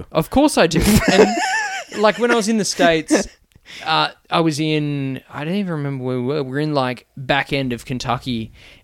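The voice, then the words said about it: Australian accent. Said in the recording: “I don't even think I have an Australian accent. ... You fucking do.”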